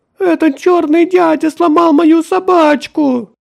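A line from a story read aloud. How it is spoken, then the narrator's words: Shrieking between sobs. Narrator (Russian): взвизгивал Джастин между рыданиями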